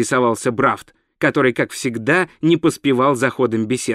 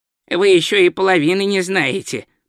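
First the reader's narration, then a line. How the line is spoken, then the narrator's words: Grumbling. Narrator (Russian): проворчал Ринсвинд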